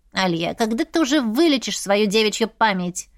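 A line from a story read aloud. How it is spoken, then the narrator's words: Grumbling. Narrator (Russian): ворчал Сантовар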